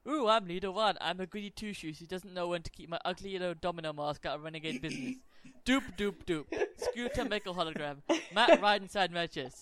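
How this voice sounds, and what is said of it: Mocking impression of a cartoon character. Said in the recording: “impersonation of Leader One”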